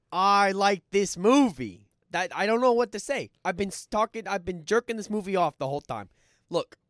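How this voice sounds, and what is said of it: Brief Philadelphia-like accent. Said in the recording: “You got an accent there for a second. ... It was almost like Philly.”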